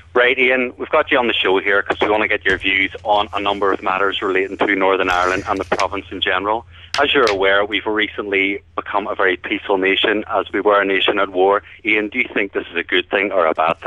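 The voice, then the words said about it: Harder, edgier Northern Irish accent. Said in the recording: “Northern Irish accent ... Give it a bit harder and a bit edgier”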